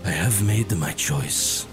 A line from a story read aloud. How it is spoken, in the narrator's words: whispered